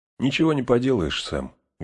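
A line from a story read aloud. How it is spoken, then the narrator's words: Sad. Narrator (Russian): грустно сказал Фродо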